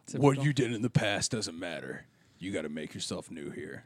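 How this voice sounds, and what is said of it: Poor impression of another person's voice. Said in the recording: “That was a terrible impression of someone”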